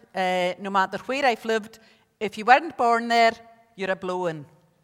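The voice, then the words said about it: Scottish accent from Isle of Lewis. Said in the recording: “You'll have discovered from the accent, I'm not really from Ballymena... I'm still very much Scottish, very much from the Isle of Lewis”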